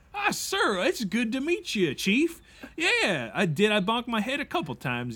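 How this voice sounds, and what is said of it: Weird put-on Nebraska accent. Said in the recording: “that weird accent that you're speaking with? It's not your typical... it's my accent. It's from Nebraska.”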